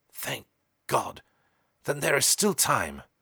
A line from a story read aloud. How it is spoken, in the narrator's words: murmured the owner of the abbey brokenly, drawing a deep, shivering sigh of relief